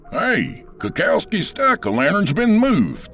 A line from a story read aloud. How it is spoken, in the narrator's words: Tyler Yablokov shout